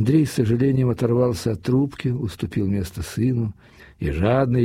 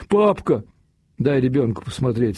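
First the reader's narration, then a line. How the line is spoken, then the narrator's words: Stern mother's command. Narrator (Russian): строго велела мать, тоже явно заинтересованная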